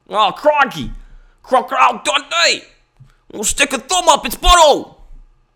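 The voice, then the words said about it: Put-on Australian accent. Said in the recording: “That may have been the best Australian impression that I've ever done.”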